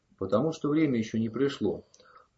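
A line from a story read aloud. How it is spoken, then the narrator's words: Even, steady voice. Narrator (Russian): ровным голосом ответил Ром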